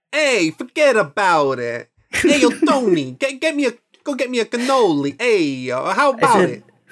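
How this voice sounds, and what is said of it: Put-on Italian New York accent. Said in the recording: “New York accent ... I didn't say Italian. I just said New York. ... I associate Italians with New York”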